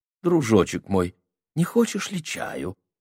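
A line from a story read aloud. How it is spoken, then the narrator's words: Tender question. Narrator (Russian): спросил он нежно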